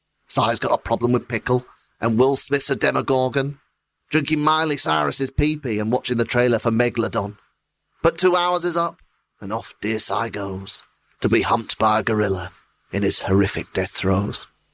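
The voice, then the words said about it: Impression of the show's host. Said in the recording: “doing an impression of you”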